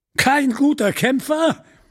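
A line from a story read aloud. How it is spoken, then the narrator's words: Laughing. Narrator (German): Der andere lachte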